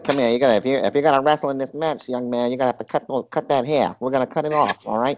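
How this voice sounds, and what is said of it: Put-on Philadelphia accent. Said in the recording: “Philly ... he probably had that accent too”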